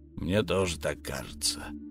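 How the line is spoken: Muttered. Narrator (Russian): пробормотал Эл

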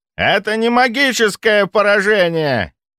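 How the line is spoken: Examiner shouting, losing control. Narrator (Russian): заорал экзаменатор, теряя последние остатки самообладания

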